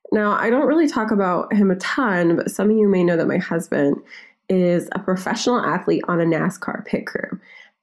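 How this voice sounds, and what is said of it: Messed-up, strained voice. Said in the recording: “my voice is still messed up”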